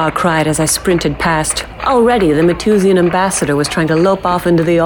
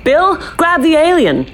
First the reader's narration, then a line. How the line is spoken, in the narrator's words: I shouted